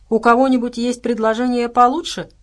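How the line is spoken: Smirking snort. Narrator (Russian): хмыкнул Дима

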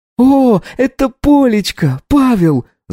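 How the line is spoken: Mother yelling. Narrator (Russian): завопила мама

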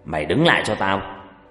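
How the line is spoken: Loud angry shout. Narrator (Vietnamese): Ông Long quát lớn

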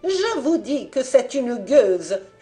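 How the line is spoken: Furious screaming. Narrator (French): hurlait nonne dont la colère, étranglée tout d'abord par la stupeur, se répandait maintenant en un flot d'invectives

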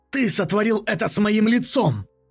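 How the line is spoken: Barking shout. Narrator (Russian): рявкнул он

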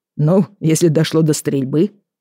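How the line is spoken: Snort. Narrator (Russian): хмыкнул он

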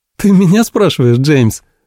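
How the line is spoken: Laughing. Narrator (Russian): рассмеялась

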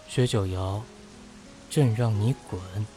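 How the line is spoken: Increasingly cold. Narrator (Chinese): 顾元白 声音愈冷

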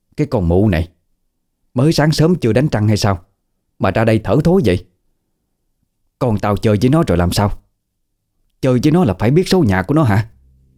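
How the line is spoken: Angry cursing. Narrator (Vietnamese): Bà Hằng tức giận, chửi vào mặt bà Thịnh

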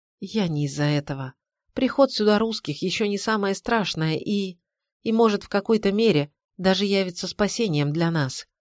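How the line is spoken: Flat mutter. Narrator (Russian): бесцветным голосом пробормотала она

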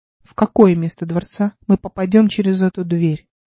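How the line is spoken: Plain. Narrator (Russian): спросил он

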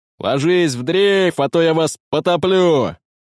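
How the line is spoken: Shouted. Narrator (Russian): крикнул на том же языке

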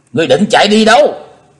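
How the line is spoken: Loud shout. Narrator (Vietnamese): Chí Tôn hét to

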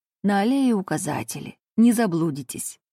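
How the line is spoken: Warmer tone. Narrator (Russian): потеплевшим тоном добавил он

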